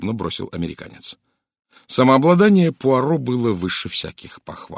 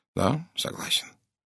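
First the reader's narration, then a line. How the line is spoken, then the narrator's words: Soft. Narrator (Russian): мягко произнес Пуаро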